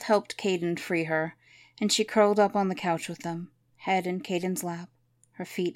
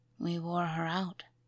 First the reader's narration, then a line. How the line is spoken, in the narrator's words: whispered